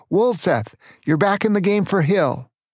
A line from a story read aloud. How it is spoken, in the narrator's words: No, he didn't really bark, but he shouted